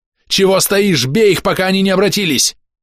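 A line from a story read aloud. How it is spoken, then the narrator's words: Roaring. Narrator (Russian): взревел Камбис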